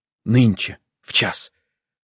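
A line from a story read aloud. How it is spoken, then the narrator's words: Whispered. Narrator (Russian): прошептала она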